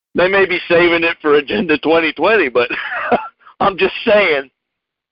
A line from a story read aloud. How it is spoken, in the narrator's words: the judge was laughing at the end